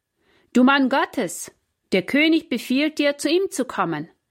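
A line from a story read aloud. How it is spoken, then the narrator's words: Captain calling out. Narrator (German): rief der Hauptmann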